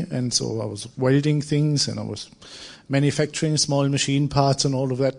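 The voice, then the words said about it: German accent. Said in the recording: “I'm German with this accent,”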